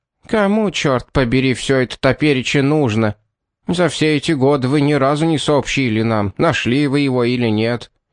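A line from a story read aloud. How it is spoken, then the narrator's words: Grumbling. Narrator (Russian): проворчала Марджери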